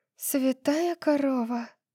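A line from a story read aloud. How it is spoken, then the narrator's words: Mutter. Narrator (Russian): Пробормотала София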